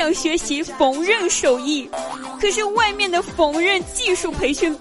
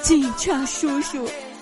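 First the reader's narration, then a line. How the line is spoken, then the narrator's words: Crying. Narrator (Chinese): 他哭着对警察叔叔说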